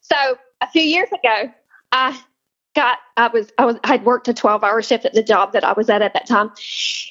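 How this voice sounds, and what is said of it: Noticeable regional accent. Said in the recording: “That accent don't exactly mask where you're from either ... Where in the world did you get that accent from? Because I know you're not from here.”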